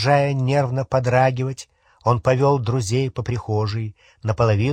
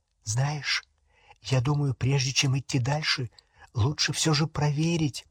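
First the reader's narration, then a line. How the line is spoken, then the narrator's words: Whisper. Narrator (Russian): прошептала Гермиона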